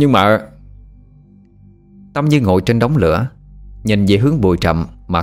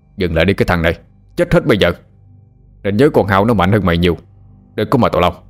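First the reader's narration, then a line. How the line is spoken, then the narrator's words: Loud shout. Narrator (Vietnamese): ông hai quát lớn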